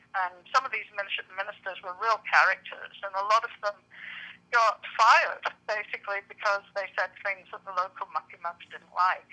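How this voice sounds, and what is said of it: Southern English accent. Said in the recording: “from your accent, I take it that you're not from Georgia ... I am a girl who was raised in the south of England”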